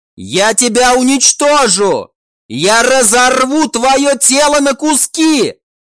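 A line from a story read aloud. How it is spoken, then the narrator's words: Shout. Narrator (Russian): Прокричала она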